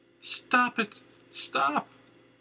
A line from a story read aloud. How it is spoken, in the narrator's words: cried, pulling against grasp